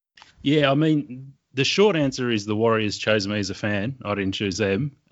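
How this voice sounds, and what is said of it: Thick Australian accent. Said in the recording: “I detect a fairly thick accent, uh, Australian accent there.”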